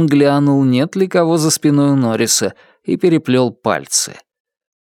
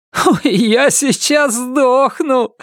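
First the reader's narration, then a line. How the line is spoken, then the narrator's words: Laughing. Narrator (Russian): смеялся Норрис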